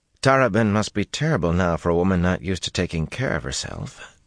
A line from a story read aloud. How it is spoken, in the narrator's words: Julin murmured